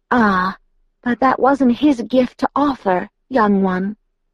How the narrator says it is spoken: Jane murmured, her voice oddly gentle now

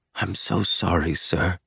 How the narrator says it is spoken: he whispers

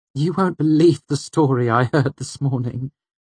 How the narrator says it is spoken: she said, laughter hiding in her voice

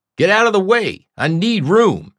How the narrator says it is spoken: he shouted

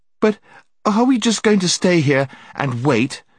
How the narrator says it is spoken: gasped Jill

